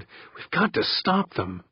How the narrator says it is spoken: Victor muttered

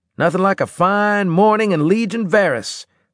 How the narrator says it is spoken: I shouted

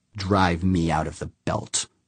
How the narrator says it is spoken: Humphreys growled

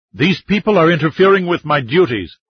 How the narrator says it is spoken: the doctor answered with a shout of his own

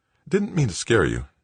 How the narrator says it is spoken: Brennart muttered

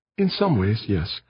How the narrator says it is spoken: Aditi murmured

